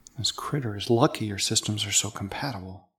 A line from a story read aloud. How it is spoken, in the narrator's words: Trainer murmured